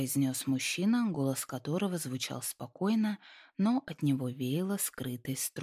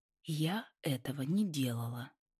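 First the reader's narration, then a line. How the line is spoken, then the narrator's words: Slow, careful. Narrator (Russian): ответила она, подбирая слова медленно и осторожно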